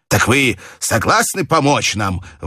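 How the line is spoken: Exclaiming. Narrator (Russian): воскликнул он

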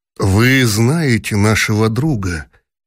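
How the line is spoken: Gentle objection. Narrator (Russian): мягко возразил князь Куракин

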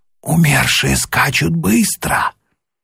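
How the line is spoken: Whispered, passenger. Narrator (Russian): Один из пассажиров шепнул

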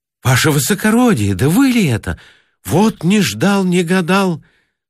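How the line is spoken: Joyful exclamation. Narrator (Russian): Сам Богданов радостно воскликнул

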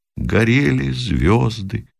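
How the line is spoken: Quiet, sad distant voice. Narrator (Russian): Оттуда же из пехотного окопа тихо и печально раздалось

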